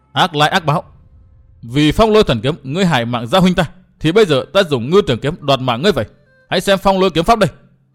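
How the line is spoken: Resentful, furious. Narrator (Vietnamese): Nàng càng căm phẫn hơn, hậm hực nói

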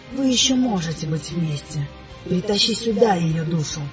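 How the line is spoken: Insistent, greedy, enticing whisper. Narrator (Russian): зашептал он настойчиво, заманивая в свои сети, завораживая обещанием, пытаясь передать мне всю алчность, которую ощущал

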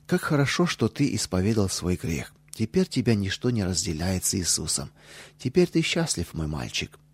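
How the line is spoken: Tender, affectionate. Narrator (Russian): Она так ласково сказала

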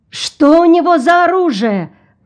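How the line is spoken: Cry from crowd. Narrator (Russian): кто-то вскрикнул в толпе

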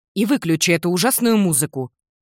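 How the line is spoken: Angry mother. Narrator (Russian): сердитым тоном матери

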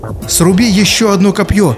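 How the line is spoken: Exclaimed. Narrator (Russian): воскликнул Хабиб

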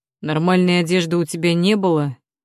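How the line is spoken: Rough question. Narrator (Russian): спрашивает он грубо

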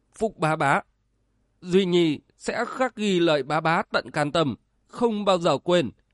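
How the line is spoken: Choked with emotion. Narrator (Vietnamese): Hai Tư nghẹn ngào nói

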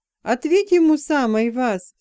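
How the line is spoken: Self-assured tone. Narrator (Russian): самоуверенным тоном предложил Пьемур

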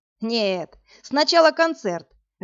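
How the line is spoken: Laughing. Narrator (Russian): рассмеялся Игорь

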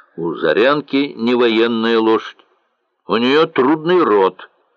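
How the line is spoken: Plain. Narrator (Russian): сказал Лемель

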